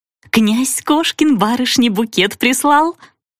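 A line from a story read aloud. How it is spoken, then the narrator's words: Joyful squeak. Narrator (Russian): Радостно пропищала девица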